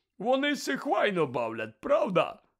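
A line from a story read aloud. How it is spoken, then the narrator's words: Joyful question. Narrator (Ukrainian): радісно спитав Гегріт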